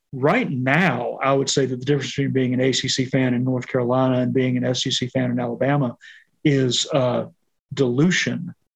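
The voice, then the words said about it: Speaker's own regional accent. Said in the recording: “with my accent, you might mistake the word that I said ... it's with my accent that sounds too close to a different word”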